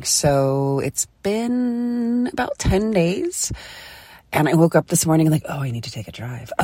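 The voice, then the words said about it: Hoarse, sick-sounding voice. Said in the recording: “I had some bronchitis. I'm sure you can hear that in my voice.”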